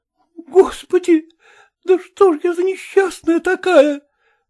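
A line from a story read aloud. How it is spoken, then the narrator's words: Desperate cry. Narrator (Russian): вскрикнула она с отчаянием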